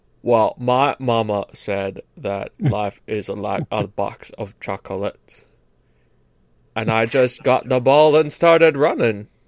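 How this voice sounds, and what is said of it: Put-on Deep South accent. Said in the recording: “the most famous deep south accent that anybody can do”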